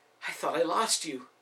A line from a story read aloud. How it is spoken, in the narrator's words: the woman exclaimed